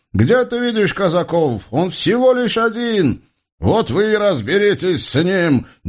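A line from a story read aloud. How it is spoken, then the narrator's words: Shouting. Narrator (Russian): прокричал Бекул-ага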